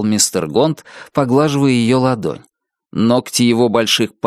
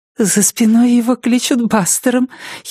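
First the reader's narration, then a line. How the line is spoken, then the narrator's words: Giggle. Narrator (Russian): хихикнула Нетти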